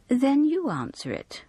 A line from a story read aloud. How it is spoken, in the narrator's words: replied Elsie sweetly